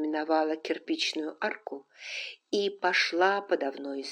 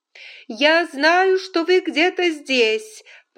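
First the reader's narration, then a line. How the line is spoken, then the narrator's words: Shouted. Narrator (Russian): прокричала Скарлетт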